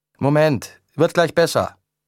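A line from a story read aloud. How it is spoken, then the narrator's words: Calling back. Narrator (German): rief Adrian zurück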